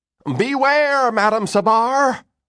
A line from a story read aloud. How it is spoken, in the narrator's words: the man shouted